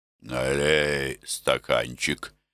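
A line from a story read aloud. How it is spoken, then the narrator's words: Hoarse voice. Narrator (Russian): хрипло проговорил он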